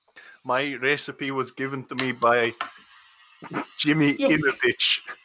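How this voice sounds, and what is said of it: Slight put-on Scottish accent. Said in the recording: “You've gone slightly Scottish there. ... making your accent go strange ... you are in danger of going Scottish”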